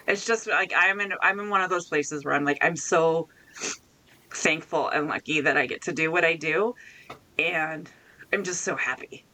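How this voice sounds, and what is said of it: Teary, emotional voice. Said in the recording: “I'm getting a little teary.”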